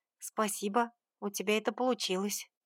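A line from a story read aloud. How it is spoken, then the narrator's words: Quiet. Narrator (Russian): произнесла негромко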